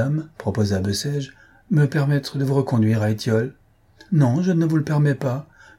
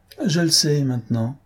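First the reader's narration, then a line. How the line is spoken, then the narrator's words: Tight, prim tone. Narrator (French): répondit-il d'un ton pincé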